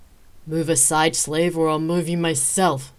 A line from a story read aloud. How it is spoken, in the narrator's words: Dimitri growled